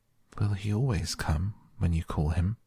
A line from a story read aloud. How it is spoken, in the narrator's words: she asked, almost in a whisper